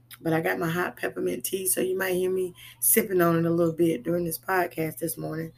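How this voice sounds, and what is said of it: Scratchy voice. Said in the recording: “my voice is a little scratchy this morning”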